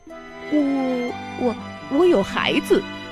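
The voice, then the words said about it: Quiet, stammering reply. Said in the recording (Chinese): “大肥猫小声的回答。”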